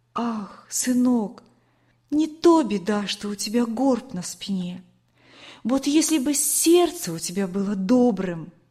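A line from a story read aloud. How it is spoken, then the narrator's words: Gentle, tender speech. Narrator (Russian): она ласково говорила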